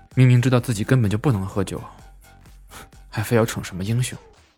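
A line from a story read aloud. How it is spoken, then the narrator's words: Helpless murmur. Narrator (Chinese): 夏耀阳无奈的看了看他喝空掉的半瓶啤酒，喃喃道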